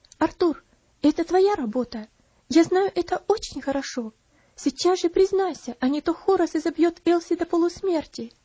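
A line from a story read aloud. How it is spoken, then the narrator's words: Quiet. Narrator (Russian): тихо сказала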